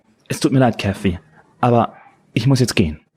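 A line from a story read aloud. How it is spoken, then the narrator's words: Stammering. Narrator (German): stammelte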